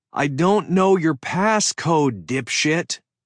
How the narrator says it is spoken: yelled into the hallway

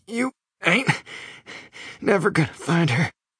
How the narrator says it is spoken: Ray growls between gasps of air

